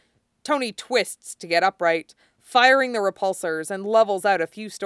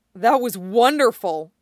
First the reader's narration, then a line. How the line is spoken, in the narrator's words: he blurts